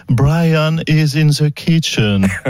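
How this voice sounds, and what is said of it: Accented English. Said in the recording (French): “il va falloir quand même que vous travailliez ... un petit peu votre accent”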